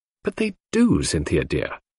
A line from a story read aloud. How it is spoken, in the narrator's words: I said earnestly